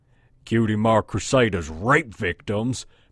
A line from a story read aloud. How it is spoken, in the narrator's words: said with tender mockery, followed by a gentle chuckle